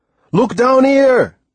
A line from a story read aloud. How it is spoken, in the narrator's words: He shouted